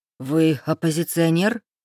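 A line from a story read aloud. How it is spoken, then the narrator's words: Astonished breathless exclamation. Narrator (Russian): изумленно выдохнул Рейв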